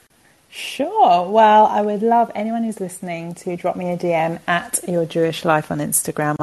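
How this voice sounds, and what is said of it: Speaks with a noticeable accent. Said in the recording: “especially that accent. I love that accent.”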